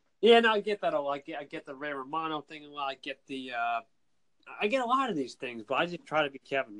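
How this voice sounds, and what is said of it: Boston Massachusetts accent. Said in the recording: “you got that accent ... I first thought it was more like a little bit of a Boston, you know, a Massachusetts accent, not Northern Jersey accent ... this guy has his accent”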